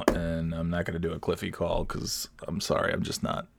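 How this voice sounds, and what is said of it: Strained, worn-out voice. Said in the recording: “my voice is done from that whole thing just now”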